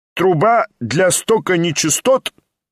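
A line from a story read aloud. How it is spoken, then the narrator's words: Loud inquiry. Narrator (Russian): громко осведомился доктор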